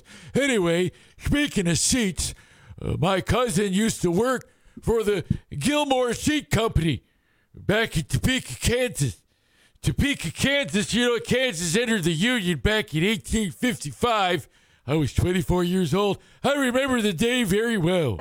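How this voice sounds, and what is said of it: Old man voice. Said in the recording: “old man voice. Okay, that's old man voice.”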